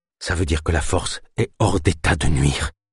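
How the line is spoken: Murmur trembling with fatigue, cold. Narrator (French): murmura-t-il d'une voix encore tremblante de fatigue et de froid

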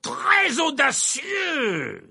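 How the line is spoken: Exclaimed. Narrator (French): s'écria Verpé

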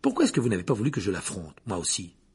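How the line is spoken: Curt question. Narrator (French): demanda sèchement Harry

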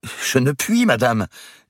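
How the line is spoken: Exclamation. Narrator (French): s'écria Marie avant même de savoir comment elle justifierait son refus

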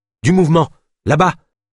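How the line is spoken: Exclaimed. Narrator (French): s'exclama Yana

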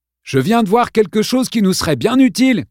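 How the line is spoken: Yelling to be heard. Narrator (French): cria Kevin en hurlant pour se faire entendre

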